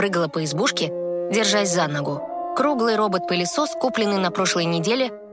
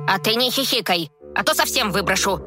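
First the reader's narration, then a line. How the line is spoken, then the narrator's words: Snapping retort. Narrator (Russian): огрызнулась хозяйка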